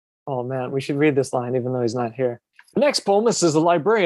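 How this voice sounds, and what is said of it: Usual voice. Nothing is said of it.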